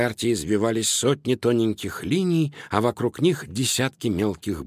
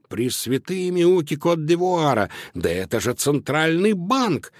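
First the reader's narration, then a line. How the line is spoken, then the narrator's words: Astonished exclamation. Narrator (Russian): изумленно воскликнул Луноброд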